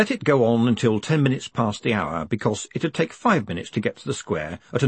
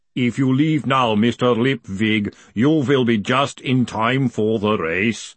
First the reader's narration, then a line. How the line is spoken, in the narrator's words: the golem rumbled from the corner